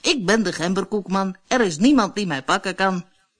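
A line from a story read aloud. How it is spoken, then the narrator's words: Laughing call. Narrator (Dutch): Het poppetje begon al te lachen en riep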